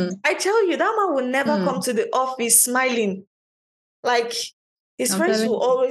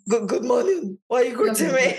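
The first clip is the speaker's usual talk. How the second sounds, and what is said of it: Imitates a grumpy man's voice. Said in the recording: “I don't know if I made that impression well”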